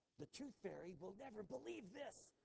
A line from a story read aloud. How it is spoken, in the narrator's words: she merely turned and whispered